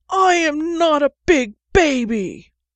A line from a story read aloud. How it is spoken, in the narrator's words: Sherlock took a shaky, shuddery breath and whined